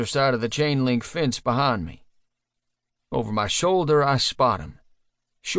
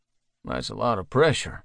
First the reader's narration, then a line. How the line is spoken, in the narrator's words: I mumble